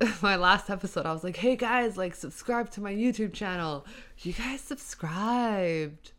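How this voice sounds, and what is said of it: Usual voice. Nothing is said of it.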